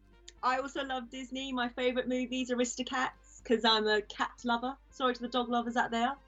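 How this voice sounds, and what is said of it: Essex English accent. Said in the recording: “I'm from Essex... get my accent picked on”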